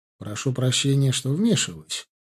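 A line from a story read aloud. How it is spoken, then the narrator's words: Calm tone. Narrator (Russian): произнес он спокойным тоном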